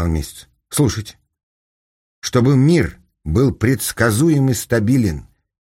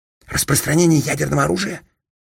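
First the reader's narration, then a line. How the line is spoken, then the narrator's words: Whisper. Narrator (Russian): прошептал Капустин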